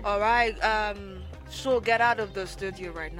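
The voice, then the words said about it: Attempted dad voice lacking bass. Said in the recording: “Do a daddy impression. ... No, my daddy doesn't sound like that. If my daddy ever sounded like that, I'll be like, Daddy, you know you have bass in your voice.”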